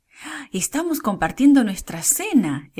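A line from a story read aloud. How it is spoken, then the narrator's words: Exclaimed. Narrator (Spanish): exclamó Débora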